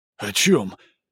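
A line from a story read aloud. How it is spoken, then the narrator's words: Breathed out. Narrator (Russian): выдохнул Хавьер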